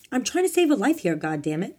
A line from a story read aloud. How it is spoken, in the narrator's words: Italian Bob shouted at him